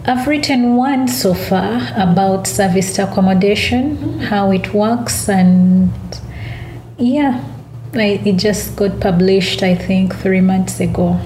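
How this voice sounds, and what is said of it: Non-English foreign accent. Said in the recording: “obviously you're not English. You can mm. hear that in your voice.”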